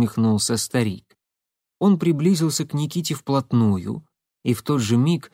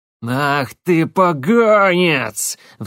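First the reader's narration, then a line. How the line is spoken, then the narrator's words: Old man's roar. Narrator (Russian): взревел старик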